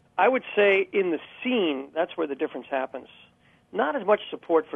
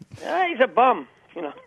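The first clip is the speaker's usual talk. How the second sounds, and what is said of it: Put-on New York accent. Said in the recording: “You got the accent and everything there”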